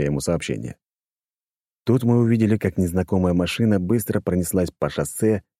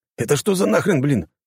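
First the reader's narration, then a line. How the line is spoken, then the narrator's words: Exclaiming. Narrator (Russian): воскликнул Данила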